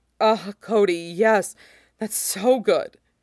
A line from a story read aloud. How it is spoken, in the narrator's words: Obi-Wan panting out